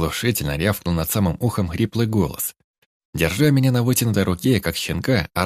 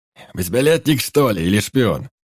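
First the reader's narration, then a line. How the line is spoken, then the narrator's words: Bellowing brutish man. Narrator (Russian): заорал звероподобный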